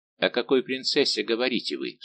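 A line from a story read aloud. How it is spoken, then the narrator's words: Plain question. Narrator (Russian): спросил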